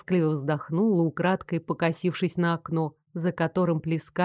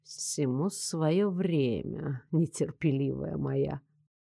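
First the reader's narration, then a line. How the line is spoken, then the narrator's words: Mysterious drawl. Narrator (Russian): загадочно протянул Лоренс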